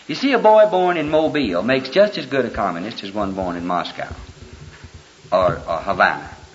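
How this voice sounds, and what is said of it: Alabama Southern accent. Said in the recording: “I would have probably had a Jersey accent. But I was born in Alabama. And it's with me the rest of the cruise”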